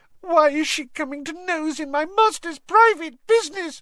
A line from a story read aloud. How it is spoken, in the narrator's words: sobbed Winky